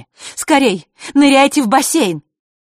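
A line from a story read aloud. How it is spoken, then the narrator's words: Mermaid shouting. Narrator (Russian): выкрикнула та русалка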